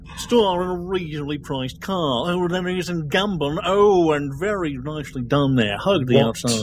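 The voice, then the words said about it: Jeremy Clarkson impression. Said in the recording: “don't you like my Jeremy impression? ... I would be Jeremy Clarkson”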